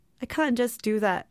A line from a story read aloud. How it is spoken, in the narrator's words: she laughed